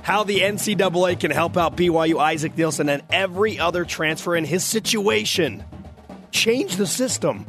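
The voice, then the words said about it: Hoarse, failing voice. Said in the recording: “I'm losing my voice. ... Sounds lost. ... as you can tell, I need your help”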